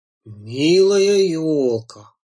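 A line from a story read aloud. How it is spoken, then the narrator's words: Said solemnly. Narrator (Russian): торжественно произнес дедушка медведь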